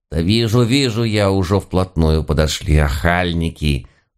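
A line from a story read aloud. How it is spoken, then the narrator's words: Gruff mutter. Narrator (Russian): Буркнул яга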